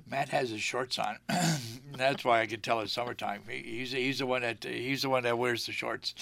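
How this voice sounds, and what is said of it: Hoarse, croaky voice. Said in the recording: “I've got a frog in my throat”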